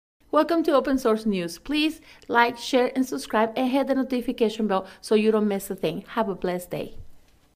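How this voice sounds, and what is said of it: Speaks with a noticeable accent. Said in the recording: “her very cute, adorable, sexy accent”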